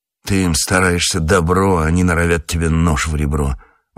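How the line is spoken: Grumbling. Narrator (Russian): ворчал он

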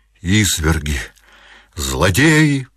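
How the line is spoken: Cried out. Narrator (Russian): вскрикнула она

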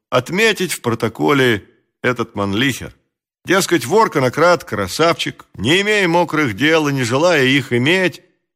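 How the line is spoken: Respectfully familiar tone. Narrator (Russian): сказал он тем же почтительно фамильярным тоном

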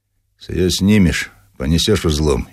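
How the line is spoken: Calm. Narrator (Russian): спокойно сказал

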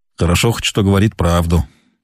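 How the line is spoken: Captain's mutter. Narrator (Russian): пробормотал капитан

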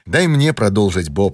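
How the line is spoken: Calm. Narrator (Russian): сказал он спокойно

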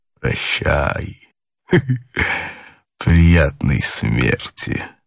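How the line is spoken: Mocking. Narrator (Russian): насмешливо сказал

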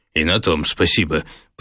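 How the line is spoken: Grumbled. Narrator (Russian): проворчал профессор

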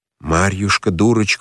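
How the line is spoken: Quiet. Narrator (Russian): указал на нее Емельян тихо

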